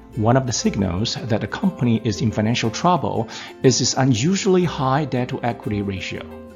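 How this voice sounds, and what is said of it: Brazilian-accented English. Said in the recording (Chinese): “为大家做巴西口音的示范”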